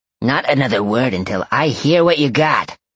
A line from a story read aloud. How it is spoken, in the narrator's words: Sawyer growled